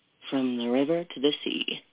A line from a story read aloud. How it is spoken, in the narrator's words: he said softly